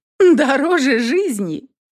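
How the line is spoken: Bitter chuckle. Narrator (Russian): Горько хохотнула я

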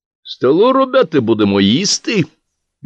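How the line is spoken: Cheerful call. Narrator (Russian): веселым голосом позвал Горошко

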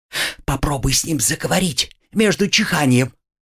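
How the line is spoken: Furtive whisper. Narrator (Russian): Пьеро украдкой шепнул Буратино

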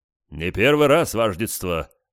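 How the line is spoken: Deep bass voice. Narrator (Russian): пробасил кто-то

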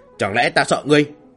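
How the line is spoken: Roaring. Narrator (Vietnamese): Xích Nguyên gầm lên

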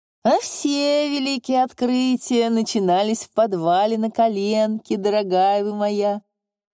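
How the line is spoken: Sarcastic laugh, professor. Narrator (Russian): Профессор саркастически засмеялся

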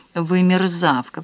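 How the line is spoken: Hissed through teeth. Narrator (Russian): процедил сквозь зубы

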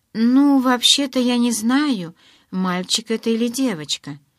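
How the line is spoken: Timid. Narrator (Russian): робко проговорила

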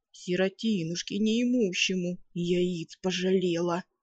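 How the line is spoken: Grumbling. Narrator (Russian): буркнул он

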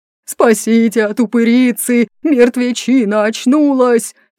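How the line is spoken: Frantic roar. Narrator (Russian): взревел, как оглашенный грабитель

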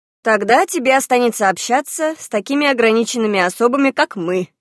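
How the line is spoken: Laughing. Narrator (Russian): засмеялась Теша

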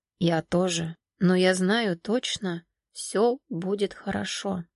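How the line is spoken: Said quietly. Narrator (Russian): Сергей негромко сказал

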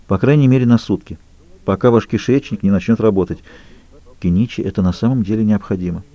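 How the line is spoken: Quiet. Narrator (Russian): тихо добавила Эмма

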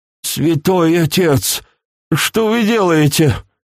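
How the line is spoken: Confused hoarse wheeze. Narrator (Russian): прохрипел, до конца не понимая происходящего

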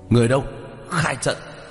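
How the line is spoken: Shouted through gritted teeth. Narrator (Vietnamese): Tướng lĩnh nghiến răng hét lên một tiếng

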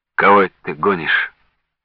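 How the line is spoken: Sad deep bass voice. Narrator (Russian): грустно пробасил Дронов

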